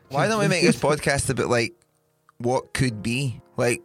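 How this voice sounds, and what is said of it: Usual voice. Nothing is said of it.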